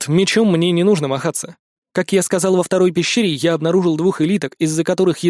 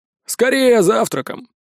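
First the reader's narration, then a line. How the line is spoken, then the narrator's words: Displeased drunk grumbling. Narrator (Russian): недовольно пробурчал пьяница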